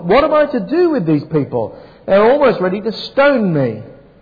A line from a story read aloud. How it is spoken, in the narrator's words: Moses cried out to the Lord